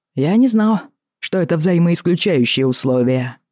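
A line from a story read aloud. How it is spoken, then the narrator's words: Dry. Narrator (Russian): сухо сказал Роджер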